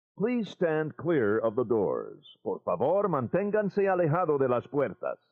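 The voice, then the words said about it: Imitates a monorail announcement voice. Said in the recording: “The monorail is my best impression.”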